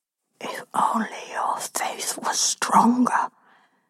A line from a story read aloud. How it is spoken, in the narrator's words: he whispers, full of glee in my ear